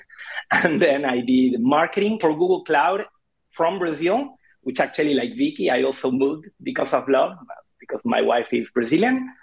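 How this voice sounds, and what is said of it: Thick Argentine accent. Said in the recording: “in Argentina, where I am from. That's why the thick accent.”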